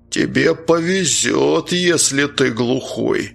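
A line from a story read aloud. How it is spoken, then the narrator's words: Threatening, through clenched teeth. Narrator (Russian): угрожающе процедил здоровяк сквозь зубы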